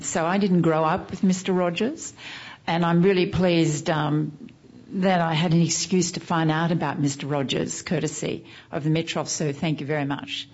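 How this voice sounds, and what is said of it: Australian accent. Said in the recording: “I'm Australian, as some of you probably picked up by my accent.”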